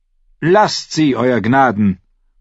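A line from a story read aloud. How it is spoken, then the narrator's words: Calling out. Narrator (German): rief Cersei dem König zu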